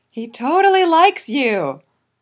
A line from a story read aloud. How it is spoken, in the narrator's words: Vegeet yells, in the same voice that he uses to herald the dusk